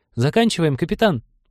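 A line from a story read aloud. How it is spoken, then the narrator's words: Squeak. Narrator (Russian): пискнул ком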